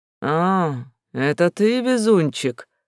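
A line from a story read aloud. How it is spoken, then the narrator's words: Creaky old voice. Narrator (Russian): Как старое дупло проскрипел хозяин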